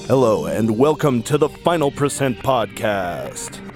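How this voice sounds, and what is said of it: Radio announcer voice. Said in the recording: “I'm a little sick, and apparently what that means is I can do a decent radio announcer voice.”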